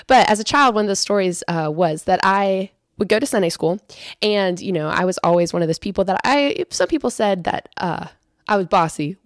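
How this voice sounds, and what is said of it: Voice slightly off from a cold. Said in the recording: “my voice is a little bit weird this week. It's just a cold that I'm slowly getting over. So I'm just going to sound a little bit funny”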